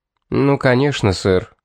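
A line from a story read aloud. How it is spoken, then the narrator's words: Calm. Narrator (Russian): спокойно проговорил Эмсли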